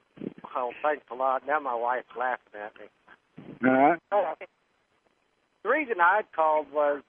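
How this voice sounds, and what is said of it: Oklahoma accent. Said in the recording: “I love your Tulsa accent.”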